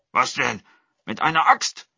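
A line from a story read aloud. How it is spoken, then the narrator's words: Tiger calling out. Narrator (German): rief der Tiger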